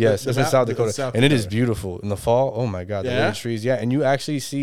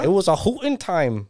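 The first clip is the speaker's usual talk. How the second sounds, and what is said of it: Put-on North Dakota Midwest accent. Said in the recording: “North Dakota accent, yo. ... Midwest.”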